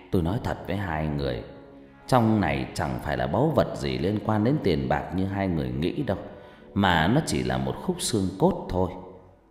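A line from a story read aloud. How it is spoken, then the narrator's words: Sighing reply. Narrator (Vietnamese): Ông Cử thở dài rồi lại đáp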